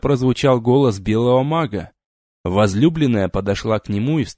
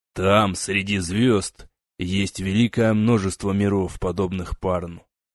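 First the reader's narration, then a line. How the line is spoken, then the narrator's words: Quiet reply. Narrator (Russian): негромко ответил шаман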